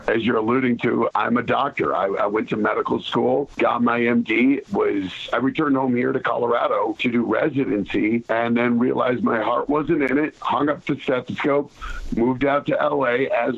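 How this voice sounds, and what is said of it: Hoarse voice. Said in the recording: “I'm a little bit hoarse. I did a little singing last night... So I'm a bit hoarse.”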